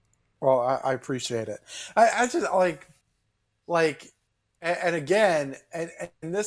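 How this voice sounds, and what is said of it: Usual voice. Nothing is said of it.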